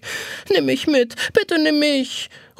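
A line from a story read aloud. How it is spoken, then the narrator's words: Pleading call. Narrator (German): ruft flehend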